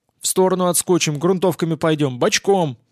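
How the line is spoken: Snapped. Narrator (Russian): огрызнулся

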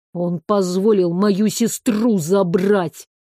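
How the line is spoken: Through gritted teeth. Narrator (Russian): процедил Иль

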